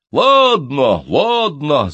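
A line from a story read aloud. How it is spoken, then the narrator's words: Many voices shouting. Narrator (Russian): закричали со всех сторон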